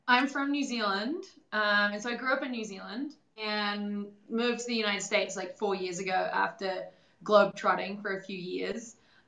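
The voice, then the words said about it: Noticeable foreign English accent. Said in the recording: “Well, that's with an accent ... obviously we picked up on an accent there”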